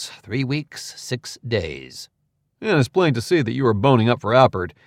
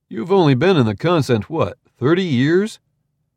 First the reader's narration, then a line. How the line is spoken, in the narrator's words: Fra Orlo sighed